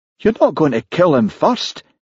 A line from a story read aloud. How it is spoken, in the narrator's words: exclaimed Charlie